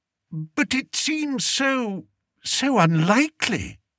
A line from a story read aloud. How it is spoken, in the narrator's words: said weakly